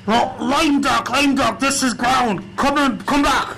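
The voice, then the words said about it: South African accent, crackly radio. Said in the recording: “his radio crackles, a South African accent coming through”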